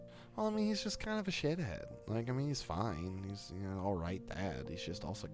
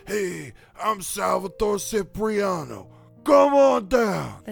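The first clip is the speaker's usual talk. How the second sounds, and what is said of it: Impression of a commercial announcer. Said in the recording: “That's a really good impression. You sound just like him.”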